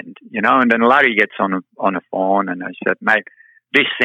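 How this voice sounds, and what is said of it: Usual voice. Nothing is said of it.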